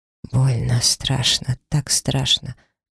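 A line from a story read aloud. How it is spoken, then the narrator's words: Whisper. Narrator (Russian): прошептал тот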